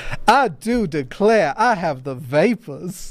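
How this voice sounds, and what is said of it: Exaggerated Southern Belle voice. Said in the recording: “It'd be like a Southern Belle kind of thing ... the same as my Lindsey Graham impression”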